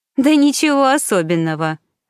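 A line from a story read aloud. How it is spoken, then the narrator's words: Laughing. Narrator (Russian): рассмеялась Мишель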